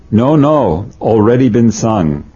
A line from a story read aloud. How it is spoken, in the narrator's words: Baba exclaimed